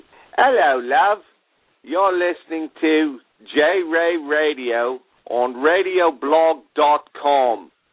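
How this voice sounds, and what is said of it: Put-on British accent. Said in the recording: “can you do a UK impression”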